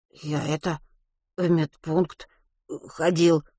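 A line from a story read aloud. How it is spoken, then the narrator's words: Stammering, swallowed-word babble. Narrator (Russian): в своей обычной манере, запинаясь и глотая слова, пролепетал Ватрушкин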